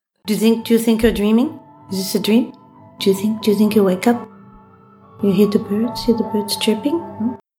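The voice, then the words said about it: Affected, vaguely Eastern European accent. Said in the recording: “She's got this terrible, terrible affected accent ... I don't know what the accent is supposed to be. Do you think of like Eastern European or something? ... It is not an accent any of us has ever heard in our lives before.”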